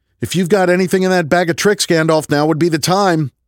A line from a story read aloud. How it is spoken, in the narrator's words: I yelled